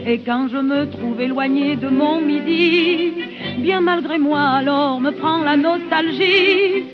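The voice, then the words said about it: Southern French Provençal accent, singing. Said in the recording (French): “une carrière à la fois parisienne et méridionale, cultivant volontiers son accent, comme nous venons de l'entendre”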